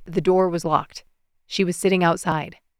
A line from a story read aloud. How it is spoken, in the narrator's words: Ryan recited, his tone cool